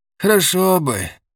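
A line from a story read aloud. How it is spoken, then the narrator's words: Sighing old man. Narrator (Russian): вздохнул старик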